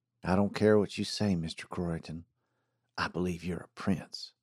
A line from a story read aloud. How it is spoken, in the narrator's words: said softly